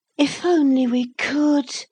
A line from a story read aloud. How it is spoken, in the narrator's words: Lucy sighed